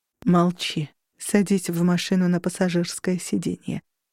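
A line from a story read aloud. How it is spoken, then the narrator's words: Low resonant command. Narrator (Russian): велела низким звучным голосом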